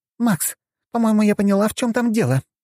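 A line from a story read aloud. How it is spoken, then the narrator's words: Joyful shout over phone. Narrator (Russian): радостно кричала в трубку Лазарева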